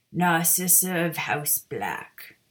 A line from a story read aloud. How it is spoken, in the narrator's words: intoned